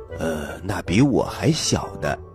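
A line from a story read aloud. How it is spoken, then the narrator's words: Muttering to himself. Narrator (Chinese): 狮子先生一听，在心里嘀咕着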